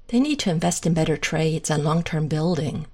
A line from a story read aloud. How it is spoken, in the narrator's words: Shane sighs